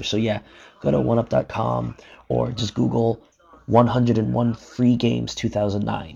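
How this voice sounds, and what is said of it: Whispering. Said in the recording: “my throat is actually getting kind of hoarse from whispering”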